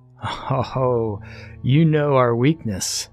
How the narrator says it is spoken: Max laughed

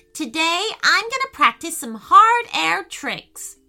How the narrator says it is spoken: exclaimed Payton

